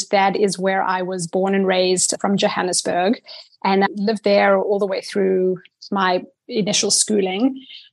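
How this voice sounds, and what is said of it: Blended South African accent. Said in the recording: “at this point in my life, it's very blended, but it started out as a full-blown native South African accent.”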